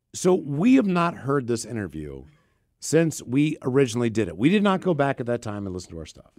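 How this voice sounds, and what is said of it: Hoarse, fading voice. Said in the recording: “losing my voice because I'm sick”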